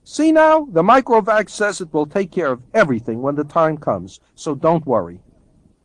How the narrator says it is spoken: said cheerfully

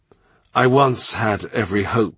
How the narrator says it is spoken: he says

